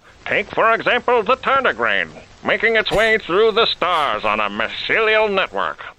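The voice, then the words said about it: Mid-Atlantic accent narration. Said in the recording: “was the mid-Atlantic accent over like 300 years before this?”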